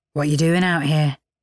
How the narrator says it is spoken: he asked

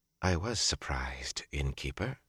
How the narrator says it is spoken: she said softly

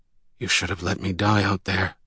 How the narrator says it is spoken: mumbled

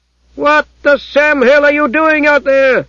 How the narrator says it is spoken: shouted the High Froman

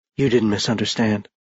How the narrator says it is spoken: she said in a husky voice

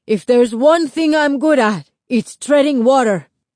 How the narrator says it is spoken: Lito yelled back

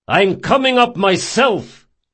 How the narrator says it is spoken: he shouted

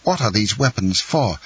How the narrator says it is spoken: exclaimed the young man

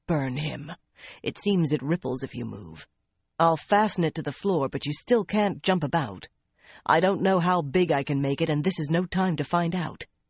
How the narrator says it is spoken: In a disgusted tone, he added

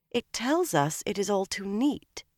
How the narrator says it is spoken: Elaine said calmly

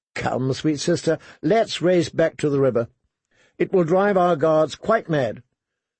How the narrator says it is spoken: She laughed and said

